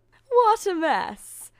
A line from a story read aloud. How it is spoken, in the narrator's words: her two stepsisters laughed